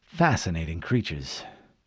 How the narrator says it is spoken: murmured

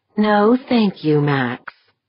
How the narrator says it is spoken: Deirdre replied sweetly

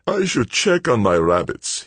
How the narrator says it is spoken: he said, yawning

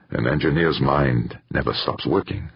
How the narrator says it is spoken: said Yamagata

